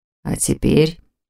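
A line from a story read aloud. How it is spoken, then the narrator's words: Muffled low voice. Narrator (Russian): глухо проговорил Непогодин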